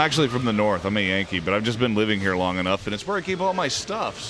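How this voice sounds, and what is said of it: Usual voice. Nothing is said of it.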